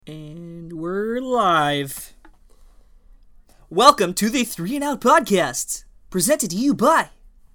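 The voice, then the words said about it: Put-on TV presenter voice. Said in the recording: “Why do that voice? ... That's my my TV personality voice.”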